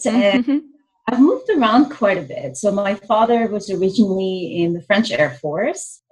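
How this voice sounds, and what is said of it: French accent. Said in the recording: “I'm originally from France, if you haven't noticed from my accent.”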